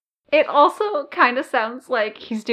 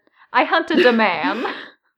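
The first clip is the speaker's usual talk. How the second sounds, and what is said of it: Bad put-on Italian accent. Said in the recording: “doing a bad Italian accent”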